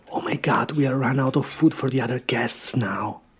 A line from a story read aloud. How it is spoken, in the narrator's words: I heard the host whisper in his wife's ear